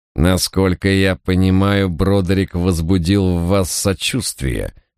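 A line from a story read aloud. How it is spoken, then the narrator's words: Words through clenched teeth. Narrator (Russian): процедил тюремщик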